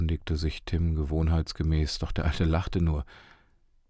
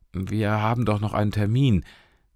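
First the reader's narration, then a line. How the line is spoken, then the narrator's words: Call. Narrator (German): rief Tim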